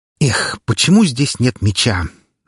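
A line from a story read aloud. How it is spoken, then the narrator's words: Sighing. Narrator (Russian): вздохнул словоохотливый Николай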